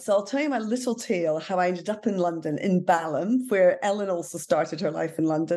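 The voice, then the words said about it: Non-London, likely Scottish accent. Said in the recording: “my accent probably tells you I'm not from London ... the daughter of a minister in the Church of Scotland”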